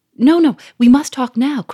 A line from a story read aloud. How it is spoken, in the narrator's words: cried Sonia